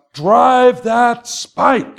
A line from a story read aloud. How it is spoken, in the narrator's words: shouted out